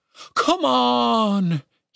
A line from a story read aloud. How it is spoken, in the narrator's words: he pleaded